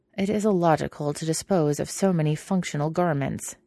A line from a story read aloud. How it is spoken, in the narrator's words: Tapria grumbled